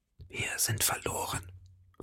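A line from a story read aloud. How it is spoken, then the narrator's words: Whisper into ears. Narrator (German): flüsterte D'Artagnan in Athoses Ohren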